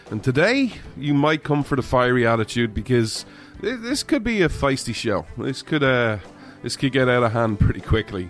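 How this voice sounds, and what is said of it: Irish accent. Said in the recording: “This Irishman ... where you come for the accent”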